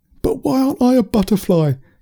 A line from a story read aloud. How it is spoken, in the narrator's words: Curtis yelled at Bertie the bee